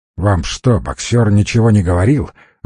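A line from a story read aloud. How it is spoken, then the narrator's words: Irritated question. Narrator (Russian): раздраженно спросил он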